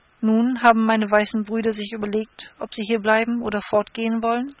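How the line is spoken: Plain question. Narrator (German): fragte Intschu-Tschuna

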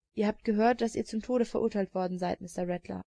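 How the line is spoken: Calm answer. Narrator (German): antwortete ruhig

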